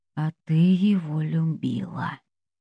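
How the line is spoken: Quiet. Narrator (Russian): тихо говорит Джинхо

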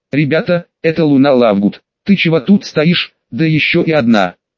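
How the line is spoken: Stern question. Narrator (Russian): строго спросил Александр

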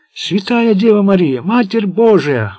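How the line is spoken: Wailing. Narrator (Russian): вопил Пласки

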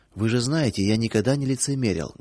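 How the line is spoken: Muffled mumble. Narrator (Russian): глухо пробормотал Павел

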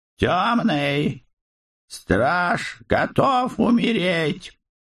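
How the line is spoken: Shrill fearful cry. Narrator (Russian): Скрип визгливо, с нескрываемой опаской, выкрикнул

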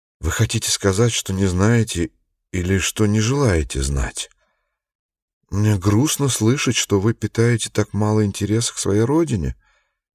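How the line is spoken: Sad, tight-lipped. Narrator (Russian): сказал дядя Дигби, печально поджав губы

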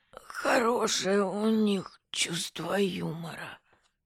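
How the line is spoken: Wheezed, catching breath. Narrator (Russian): он отдышался и просипел

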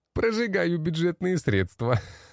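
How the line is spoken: Laughing. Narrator (Russian): Рассмеялся он

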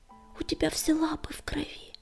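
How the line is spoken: Whisper. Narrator (Russian): прошептала песчаная буря

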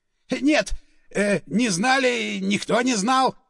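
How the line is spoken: Shrieking. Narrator (Russian): визжал он

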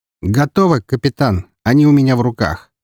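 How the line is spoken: Satisfied grunt. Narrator (Russian): с удовлетворением хмыкнул он

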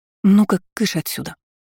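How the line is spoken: Quiet firm statement. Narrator (Russian): негромко заявила мама

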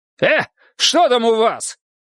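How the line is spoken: Shouting. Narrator (Russian): крикнула, назираясь

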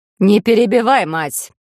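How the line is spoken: Growl. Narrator (Russian): рыкнула

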